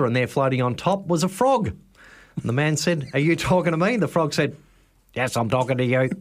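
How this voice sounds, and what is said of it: Usual voice. Nothing is said of it.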